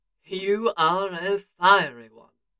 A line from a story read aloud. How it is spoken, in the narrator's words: he purred